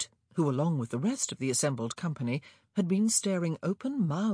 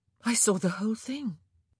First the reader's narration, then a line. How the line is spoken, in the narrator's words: Kate said in a dazed voice